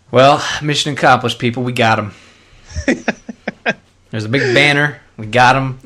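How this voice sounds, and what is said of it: Speaks in a put-on accent. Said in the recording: “I demand that you speak in that accent”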